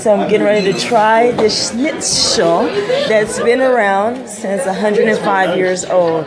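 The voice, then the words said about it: Slight Texas accent. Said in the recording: “I have a little Texas accent”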